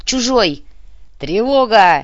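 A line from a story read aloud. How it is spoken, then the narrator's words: Barked. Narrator (Russian): рявкнул Тамир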